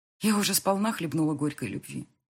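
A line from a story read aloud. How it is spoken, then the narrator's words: Plain. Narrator (Russian): сказала я ему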